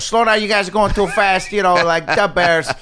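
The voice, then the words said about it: Put-on Chicago accent. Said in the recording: “I was doing a Chicago accent.”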